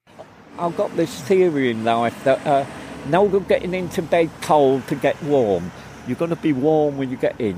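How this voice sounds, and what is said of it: West Country English accent. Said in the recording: “West Country accent”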